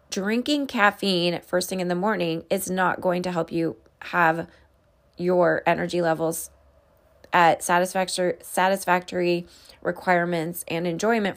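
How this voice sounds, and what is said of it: Strained, fading voice. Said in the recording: “I apologize for my voice. It seems like I'm losing my voice a little bit today”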